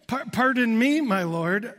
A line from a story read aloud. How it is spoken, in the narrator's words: Gideon replied